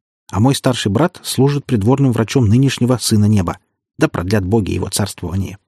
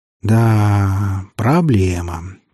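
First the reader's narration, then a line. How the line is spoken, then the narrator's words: Drawn-out drawl. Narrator (Russian): протянул я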